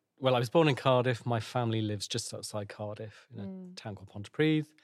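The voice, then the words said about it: Welsh lilt accent. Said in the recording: “I'm Welsh, you can probably tell. Have that lilt.”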